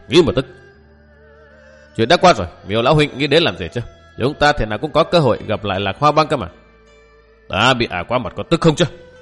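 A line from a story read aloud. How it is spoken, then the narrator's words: Old man, sullen resentment. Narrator (Vietnamese): Lão hậm hực nói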